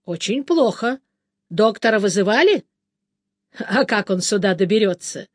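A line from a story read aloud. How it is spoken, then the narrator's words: Laughing. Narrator (Russian): Бен засмеялся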